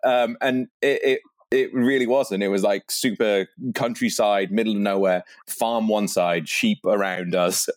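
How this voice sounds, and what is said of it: Posh British accent. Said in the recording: “I have this kind of fancy, posh British sounding accent”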